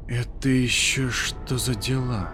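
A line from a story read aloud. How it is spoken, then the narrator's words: Quiet question. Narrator (Russian): тихо спросил я у Годфри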